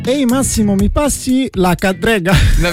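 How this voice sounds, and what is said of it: Put-on Milanese accent. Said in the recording (Italian): “dimmela in milanese”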